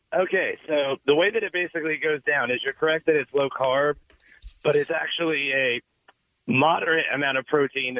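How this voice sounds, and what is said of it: Sick, under-the-weather voice. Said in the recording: “I apologize for my voice. I'm a little under the weather”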